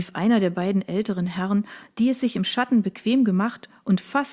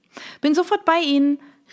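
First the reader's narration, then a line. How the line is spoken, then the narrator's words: Cheerful call back. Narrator (German): rief Isabelle mit strahlendem Lächeln zurück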